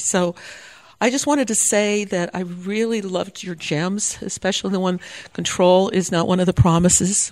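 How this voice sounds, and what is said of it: Rough, unwell-sounding voice. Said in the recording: “sorry about my voice. I'm recovering from pneumonia”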